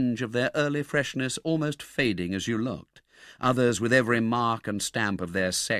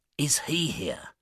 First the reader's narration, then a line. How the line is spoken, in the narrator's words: The Jew said in a whisper